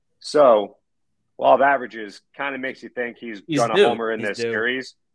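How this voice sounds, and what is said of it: Hoarse, fading voice. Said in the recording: “lose my voice”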